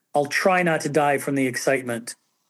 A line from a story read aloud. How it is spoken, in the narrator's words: she kind of very icily says